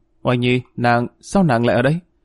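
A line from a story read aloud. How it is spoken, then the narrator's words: Stammering. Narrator (Vietnamese): Dương Hổ lắp bắp nói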